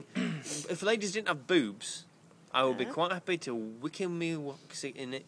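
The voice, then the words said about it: Imitates another person's voice. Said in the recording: “That was my David Bellamy impersonation.”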